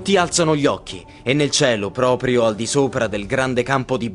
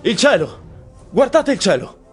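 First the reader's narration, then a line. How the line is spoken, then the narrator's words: Sudden shout. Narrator (Italian): D'un tratto qualcuno grida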